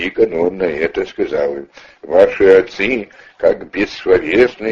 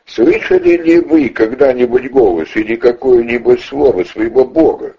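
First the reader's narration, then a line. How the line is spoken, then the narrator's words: Saint's mocking laughing question. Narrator (Russian): Тогда святый, смеясь над ними, продолжил им такой вопрос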